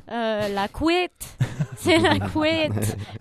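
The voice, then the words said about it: Put-on Belgian French accent. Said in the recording (French): “J'ai pris un accent, ... Belge. ... tu parles belge”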